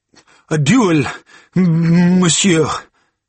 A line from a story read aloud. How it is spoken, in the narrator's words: he stammered